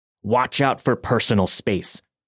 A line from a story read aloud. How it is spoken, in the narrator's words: she hissed in my ear